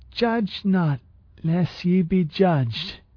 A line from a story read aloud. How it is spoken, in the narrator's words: she slurred